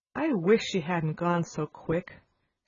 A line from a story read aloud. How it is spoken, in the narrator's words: she said